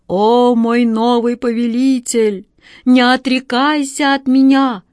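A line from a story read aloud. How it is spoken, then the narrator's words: Muffled bestial voice. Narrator (Russian): Глухо донесся звероподобный голос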